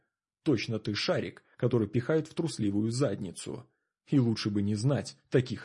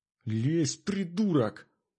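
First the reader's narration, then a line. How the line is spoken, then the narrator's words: Little girl's angry hiss. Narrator (Russian): раздалось злобное шипение мелкой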